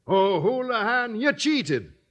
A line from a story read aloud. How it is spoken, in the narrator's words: cried Sweeney